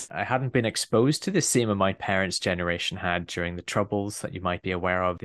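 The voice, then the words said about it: Northern Irish Belfast accent. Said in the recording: “he was born in Belfast. So you might have picked that up from the accent. ... I'm a Northern Irish boy”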